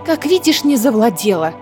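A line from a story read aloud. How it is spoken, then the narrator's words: Snapping irritably. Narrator (Russian): огрызнулась Айлина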